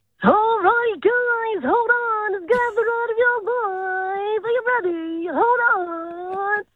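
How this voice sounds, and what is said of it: Carnival ride operator voice. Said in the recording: “could do a good carny voice ... like a carnival person? ... like a circus?”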